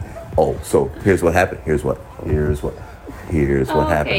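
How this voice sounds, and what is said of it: Usual voice. Nothing is said of it.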